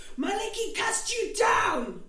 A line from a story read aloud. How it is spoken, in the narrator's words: shouts